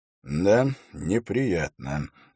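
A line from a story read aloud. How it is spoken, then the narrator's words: Sighing. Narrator (Russian): вздохнул Холт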